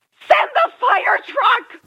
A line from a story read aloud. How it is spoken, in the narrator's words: a female voice shouted frantically